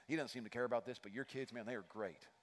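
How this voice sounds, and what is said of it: Slight put-on Texan accent. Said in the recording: “you can tell it's a little accent right there, right?”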